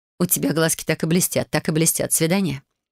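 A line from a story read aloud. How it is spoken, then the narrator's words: Snorting, then speaking. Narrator (Russian): хмыкнула и сказала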